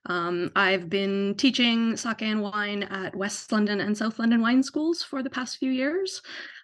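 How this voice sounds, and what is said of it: Canadian accent. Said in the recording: “as you can tell from my accent, I'm not originally from here. So I'm from Canada”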